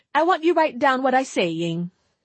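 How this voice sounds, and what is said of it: Strong Italian accent. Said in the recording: “in his strong accent”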